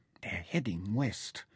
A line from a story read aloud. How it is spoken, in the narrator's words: whispered, to lips that were beginning to swell and crack